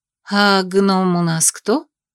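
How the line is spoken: Ingratiating question. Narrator (Russian): вкрадчиво спросила я

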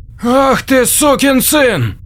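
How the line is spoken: Breathed out. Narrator (Russian): выдохнул Джек

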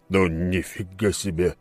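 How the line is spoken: Wary muttering. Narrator (Russian): пробормотал с опаской

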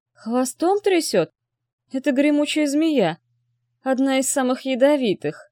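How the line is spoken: Hoarse, strained. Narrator (Russian): Сипло выдавил Хали

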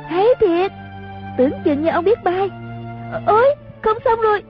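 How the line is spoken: Clapping, excited cheer. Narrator (Vietnamese): Chung Linh vỗ tay reo lên

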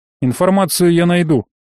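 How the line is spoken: Snort. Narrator (Russian): хмыкнул он

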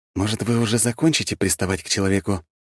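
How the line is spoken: Muttered through teeth. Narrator (Russian): процедил я

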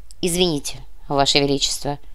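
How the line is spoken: Curt, clipped. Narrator (Russian): отрывисто произнесла Милана

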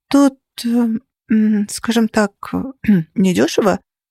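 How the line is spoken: Timid, very embarrassed. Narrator (Russian): робко заметила я, почему-то сильно-сильно смущаясь

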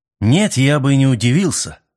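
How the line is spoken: Irritated reply. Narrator (Russian): раздраженно ответил Мэлори

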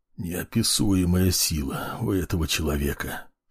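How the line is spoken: Tearful whisper. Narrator (Russian): шептал Эриль, смахивая с мохнатой морды слезы

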